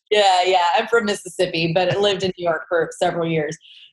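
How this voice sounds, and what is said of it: Southern US twang accent. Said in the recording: “you got a southern twang.”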